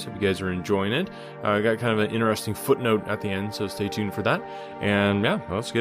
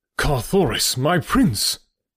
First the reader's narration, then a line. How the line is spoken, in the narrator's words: cried